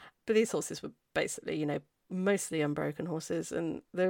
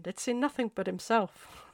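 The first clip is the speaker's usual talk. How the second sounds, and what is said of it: Poor put-on Irish accent. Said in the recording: “sorry for my rubbish Irish accent ... They know that I can't do that.”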